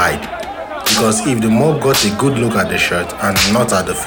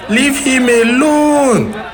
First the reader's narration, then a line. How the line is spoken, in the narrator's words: Doin screamed in between sobs